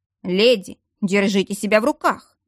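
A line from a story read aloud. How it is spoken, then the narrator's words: Stern command. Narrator (Russian): Строго приказал Верейский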